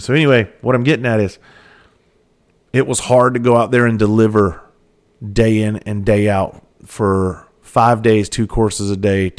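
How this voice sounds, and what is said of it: Strained, sore-sounding voice. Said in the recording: “throat was killing me ... my voice is a little is hurting”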